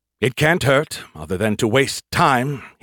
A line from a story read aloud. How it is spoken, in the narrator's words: he sighed